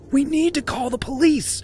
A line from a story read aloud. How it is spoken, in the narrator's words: gasped